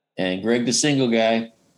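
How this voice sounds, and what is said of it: Smooth, buttery radio DJ voice. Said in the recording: “It sounds so buttery when you say it like that. You're working on your DJ voice.”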